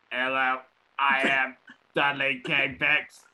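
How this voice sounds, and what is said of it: Robot voice. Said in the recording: “Oh, 2.0. Smoking too much. ... We have a union destroying robot.”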